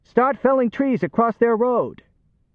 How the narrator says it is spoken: Johnny yelled

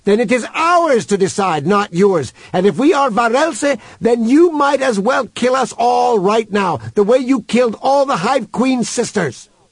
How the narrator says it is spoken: shouted Human into the speaker's face

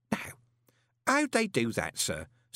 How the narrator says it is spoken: said Groat in a kindly voice

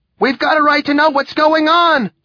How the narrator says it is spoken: cried

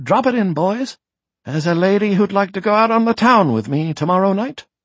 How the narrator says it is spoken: said merrily

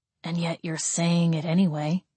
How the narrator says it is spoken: Gabriel muttered

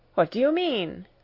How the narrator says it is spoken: I cried

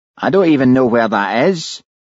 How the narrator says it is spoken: whined Fatty

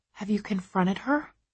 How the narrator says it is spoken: I whisper, not sure if I really want to know

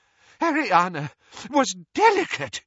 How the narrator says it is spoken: said Doge desperately

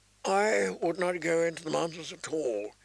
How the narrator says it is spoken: he said in a thin, tired voice

